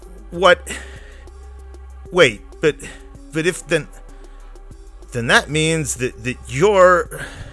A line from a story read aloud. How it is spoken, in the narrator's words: heart pounding, mind reeling, stutter